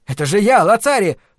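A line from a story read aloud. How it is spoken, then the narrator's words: Shouting again. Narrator (Russian): снова закричал он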